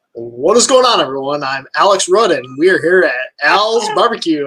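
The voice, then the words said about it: Announcer-style radio voice. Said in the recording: “your best radio voice”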